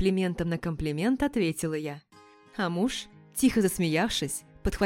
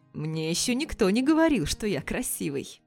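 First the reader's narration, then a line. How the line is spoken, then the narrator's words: Snort up close. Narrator (Russian): Фыркнул прямо мне в губы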